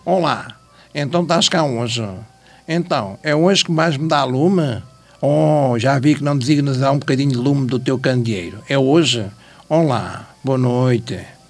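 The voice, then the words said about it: Imitates another person's voice. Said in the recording (Portuguese): “imitação ... Quase perfeito ... Hoje um bocadinho mais nervoso, mas faço na perfeição o Vasco”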